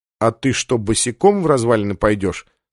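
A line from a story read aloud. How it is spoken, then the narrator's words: Plain. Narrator (Russian): спросил Сандерс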